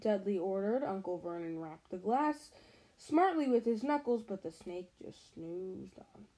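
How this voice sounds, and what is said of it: Reads in a good British accent. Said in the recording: “Where did you get such a good British accent”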